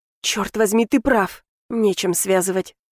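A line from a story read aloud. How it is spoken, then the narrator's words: Whispered wail. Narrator (Russian): умудрилась я взвыть шепотом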